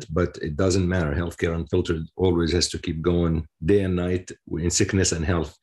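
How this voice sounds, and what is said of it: Voice sounds slightly unwell. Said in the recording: “you can tell probably that my voice is not 100%”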